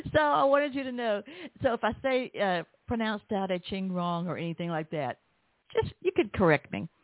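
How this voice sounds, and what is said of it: Southern accent. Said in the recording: “I've got a Southern accent”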